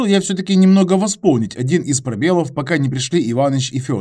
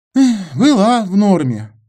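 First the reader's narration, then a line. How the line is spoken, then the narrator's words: Sighing. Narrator (Russian): вздохнул Антон Васильевич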